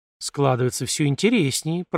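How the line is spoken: Muttered. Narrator (Russian): пробормотал я

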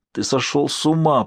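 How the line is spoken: Rasping. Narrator (Russian): прохрипел он

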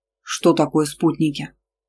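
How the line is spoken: Plain. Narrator (Russian): спросил Иранда

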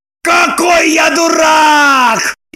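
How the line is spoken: Frenzied shout. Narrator (Russian): Иступленно закричал Роман

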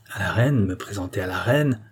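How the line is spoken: Brewer grumbling. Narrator (French): grogna le brasseur

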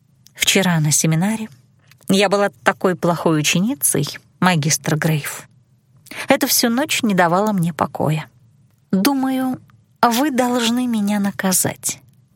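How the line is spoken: Purred. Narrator (Russian): Промурлыкала

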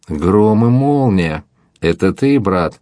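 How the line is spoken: Loud laughter. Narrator (Russian): И Лане захохотал во все горло

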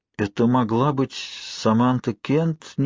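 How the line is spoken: Uncertain. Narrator (Russian): неуверенно произнесла Дарби

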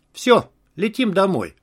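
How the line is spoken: Calm. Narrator (Russian): Катя спокойно сказала

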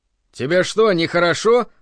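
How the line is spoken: Loud question. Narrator (Russian): громко спросил Гельмгольц

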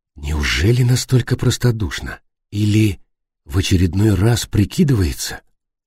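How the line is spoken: Calm, suppressed irritation. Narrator (Russian): Дима подавил раздражение, спокойно спросил

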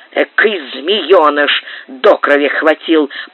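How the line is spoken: Grumbling. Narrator (Russian): проворчал Пэдди

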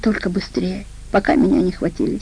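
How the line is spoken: Flustered whisper. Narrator (Russian): Вика, раскрасневшись, как пион, прошептала

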